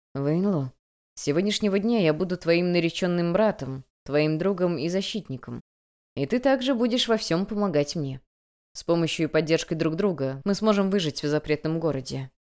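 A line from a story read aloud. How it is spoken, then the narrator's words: Tender velvety voice. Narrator (Russian): Нежным, словно бархатным голосом он произнес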